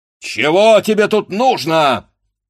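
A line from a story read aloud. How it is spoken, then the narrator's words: Stern shout. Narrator (Russian): сурово закричал вышедший кузнец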